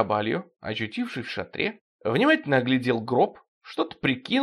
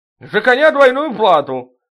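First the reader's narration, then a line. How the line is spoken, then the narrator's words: Belated shout. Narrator (Russian): запоздало крикнул старший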